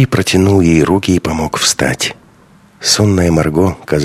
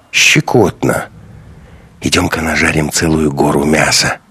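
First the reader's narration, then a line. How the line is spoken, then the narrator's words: Whispered. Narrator (Russian): прошептал Андрей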